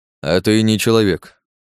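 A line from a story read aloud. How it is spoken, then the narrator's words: Calm knight. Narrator (Russian): спокойно ответил рыцарь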